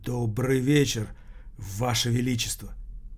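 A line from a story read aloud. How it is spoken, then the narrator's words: Quiet frightened voice. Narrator (Russian): Один из них тихим, испуганным голосом проговорил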